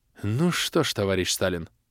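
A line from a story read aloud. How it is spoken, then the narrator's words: Thoughtful mutter. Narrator (Russian): задумчиво пробормотал полковник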